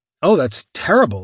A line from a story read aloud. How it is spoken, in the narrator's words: said